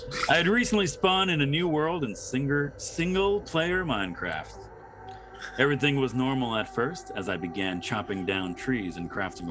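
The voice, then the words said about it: Announcer voice. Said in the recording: “put on my best announcer voice”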